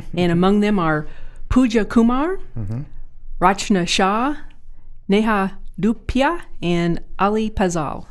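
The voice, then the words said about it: Names pronounced in an accent. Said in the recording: “Good accent”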